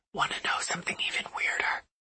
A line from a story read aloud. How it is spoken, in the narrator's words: he whispers